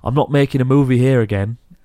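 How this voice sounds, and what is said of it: Imitates another person's voice. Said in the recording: “do his voice. It's your accent, though. He's from your neck of the woods... his accent's better than that”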